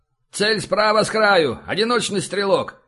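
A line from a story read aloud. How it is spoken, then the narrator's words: Shouted out. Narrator (Russian): выкрикнул Каздоев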